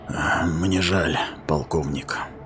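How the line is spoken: Whisper. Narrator (Russian): прошептал он

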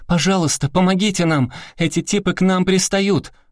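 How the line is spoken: Sudden shout. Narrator (Russian): Внезапно Тамоа закричала двум студентам

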